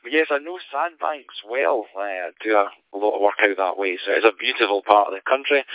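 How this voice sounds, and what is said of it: Scottish accent. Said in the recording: “The accent is not local ... I thought I could hear a Scottish accent”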